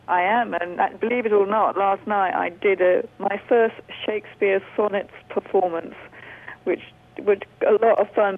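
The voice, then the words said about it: English accent. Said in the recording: “they notice your accent, and you are actually originally from England”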